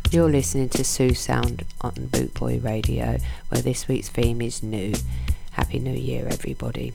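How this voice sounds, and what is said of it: Strained, failing voice. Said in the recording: “Sorry, my voice is going a bit there.”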